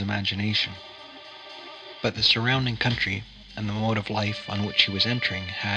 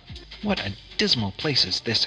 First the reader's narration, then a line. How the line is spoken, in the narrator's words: exclaimed the Countess